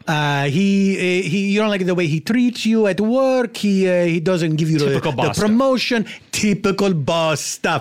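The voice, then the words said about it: Put-on accent resembling Borat's. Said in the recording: “Your accent sounds remarkably close to Borat”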